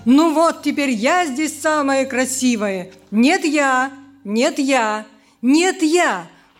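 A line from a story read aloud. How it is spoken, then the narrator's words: Many voices shouting. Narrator (Russian): кричала каждая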